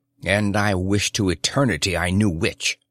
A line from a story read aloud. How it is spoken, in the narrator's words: said the Guesser harshly